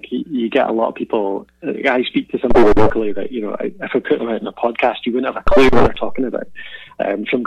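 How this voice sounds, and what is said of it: Mild Scottish accent. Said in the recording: “I've certainly learned to moderate my accent a little bit ... I don't have a strong Scottish accent by any means”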